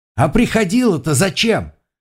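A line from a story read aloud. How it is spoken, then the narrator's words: Calling after. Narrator (Russian): крикнул вдогонку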